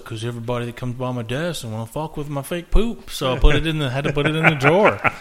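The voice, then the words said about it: Imitates another person's voice. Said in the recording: “your impression of Jay's voice? ... I smartened him up a little bit.”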